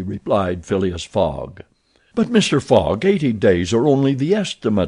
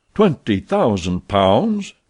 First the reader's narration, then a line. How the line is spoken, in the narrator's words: cried Sullivan